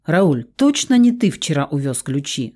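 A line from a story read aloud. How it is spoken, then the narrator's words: Plain question. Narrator (Russian): спросила Моника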